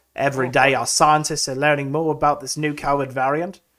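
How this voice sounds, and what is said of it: Put-on Australian accent. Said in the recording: “I'm sounding Australian.”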